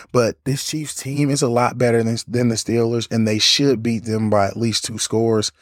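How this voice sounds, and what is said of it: Hoarse, worn-out voice. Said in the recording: “my voice is shot at this point”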